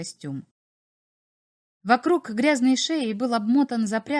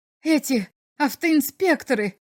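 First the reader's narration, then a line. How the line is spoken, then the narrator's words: Exclaimed. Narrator (Russian): воскликнул посетитель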